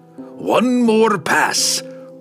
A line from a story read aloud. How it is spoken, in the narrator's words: Brunner growled